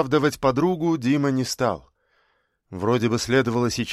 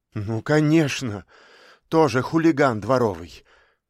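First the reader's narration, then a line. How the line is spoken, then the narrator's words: Heavy sigh. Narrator (Russian): вздохнула тяжко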